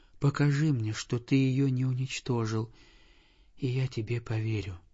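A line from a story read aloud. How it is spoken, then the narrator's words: Weak exhausted sick whisper. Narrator (Russian): прошептал больной, такой слабый и истомленный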